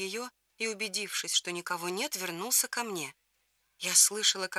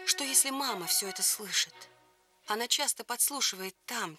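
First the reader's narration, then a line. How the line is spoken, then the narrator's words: Quiet. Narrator (Russian): тихо сказала я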